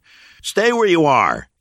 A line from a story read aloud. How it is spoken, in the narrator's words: Noah yelled at the newcomers